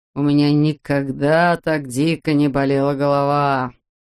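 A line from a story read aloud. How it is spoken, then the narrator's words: Groaning in pain. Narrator (Russian): стонал хирург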